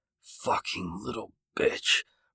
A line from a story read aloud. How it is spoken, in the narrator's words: Ryan hissed quietly